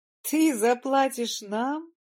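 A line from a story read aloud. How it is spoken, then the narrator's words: Asked through laughter. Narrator (Russian): сквозь смех спросил Андрей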